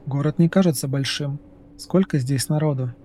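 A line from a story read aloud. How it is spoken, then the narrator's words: Plain. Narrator (Russian): спросил Дерк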